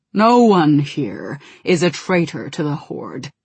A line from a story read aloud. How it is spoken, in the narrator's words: he said in his deep, rumbling voice